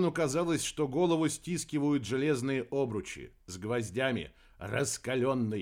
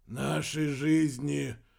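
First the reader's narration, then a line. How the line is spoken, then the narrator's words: Muffled reply. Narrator (Russian): глухо отозвался Вернон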